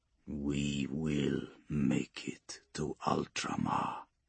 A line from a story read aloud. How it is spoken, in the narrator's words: Vaux says, softly now